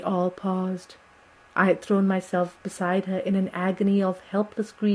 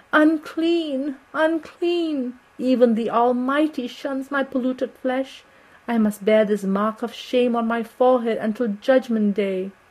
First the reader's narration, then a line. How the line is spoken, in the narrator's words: she wailed out